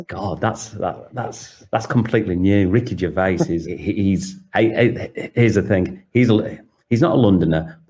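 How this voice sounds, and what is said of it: Northern English British accent. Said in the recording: “your British accent ... I'm from northern England”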